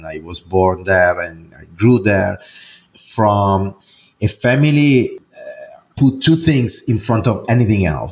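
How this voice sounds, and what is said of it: Italian accent. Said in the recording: “as you probably can hear from my accent, I'm not American ... but I am Italian”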